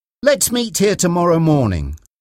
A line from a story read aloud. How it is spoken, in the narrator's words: Reggie said